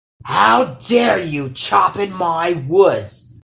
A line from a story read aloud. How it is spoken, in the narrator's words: roared the troll